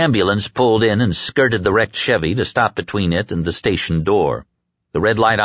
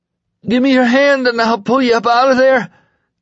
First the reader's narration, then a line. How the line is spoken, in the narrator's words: the man on the floor cried suddenly